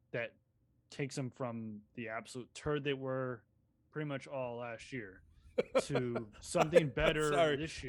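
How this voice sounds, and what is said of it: Flat deadpan newsreader delivery. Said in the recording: “deadpan ... Like Walter Cronkite”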